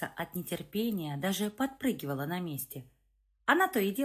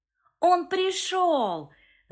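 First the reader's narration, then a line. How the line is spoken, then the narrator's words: Shrieking girl. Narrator (Russian): завизжала дочь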